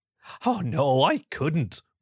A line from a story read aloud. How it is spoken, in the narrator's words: Bronwyn giggled